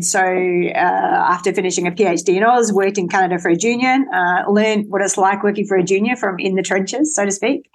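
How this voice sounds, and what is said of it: Australian accent. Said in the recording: “you can probably tell from the accent, came from Australia”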